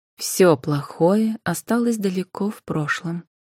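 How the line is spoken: Calm voice. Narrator (Russian): произнесла спокойным голосом Анфиса

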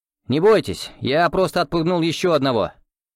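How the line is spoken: Loud shout. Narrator (Russian): громко крикнул Иван

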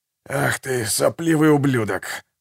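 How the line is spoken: Hoarse rasp. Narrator (Russian): прохрипел Гегель

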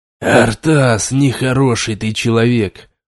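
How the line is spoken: Hoarse rasp. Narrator (Russian): прохрипел

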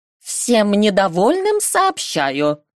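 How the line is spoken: Loud, confident. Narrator (Russian): громко и уверенно произнесла магичка

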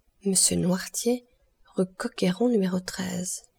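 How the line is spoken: Fearful murmur. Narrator (French): murmura-t-il en pâlissant de plus en plus

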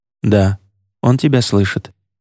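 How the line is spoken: Soft reply. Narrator (Russian): мягко ответил Едриэль

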